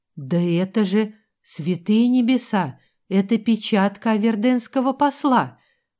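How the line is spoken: Breathless exhale. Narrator (Russian): Наконец выдохнул он

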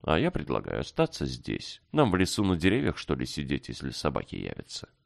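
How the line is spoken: Calm after a pause. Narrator (Russian): Иван выдержал небольшую паузу, чтобы говорить спокойно

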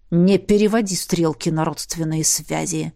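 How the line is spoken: Spat angrily. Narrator (Russian): зло выплюнул Сандерс

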